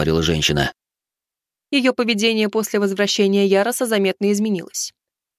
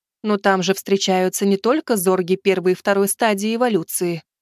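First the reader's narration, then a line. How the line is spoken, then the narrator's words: Anxious tone. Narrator (Russian): тревожным тоном проговорила Аса Карини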